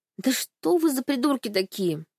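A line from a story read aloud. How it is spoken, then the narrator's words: Sighing. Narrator (Russian): вздохнула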